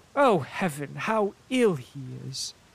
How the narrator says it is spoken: exclaimed the mother

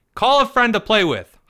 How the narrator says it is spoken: hollered his mother

